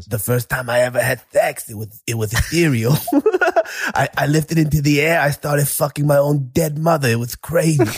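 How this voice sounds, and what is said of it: Imitates another person's voice. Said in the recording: “if I close my eyes, it's Mike Tyson, bro. Hey, that's how good your impression is.”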